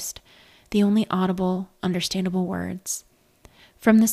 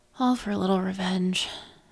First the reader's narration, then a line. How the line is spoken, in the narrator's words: said with a sigh